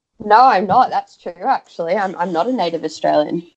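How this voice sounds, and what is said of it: Australian accent. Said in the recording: “But you sound like one. ... you definitely sound like Australian.”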